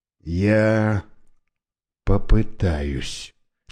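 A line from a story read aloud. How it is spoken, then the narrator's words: Quiet. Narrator (Russian): тихо сказал он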